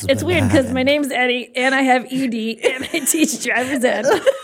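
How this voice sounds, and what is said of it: Put-on Jersey accent. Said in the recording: “You just gave it like a Jersey accent.”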